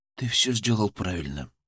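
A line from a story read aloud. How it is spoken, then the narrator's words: Quiet. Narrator (Russian): сказал он негромко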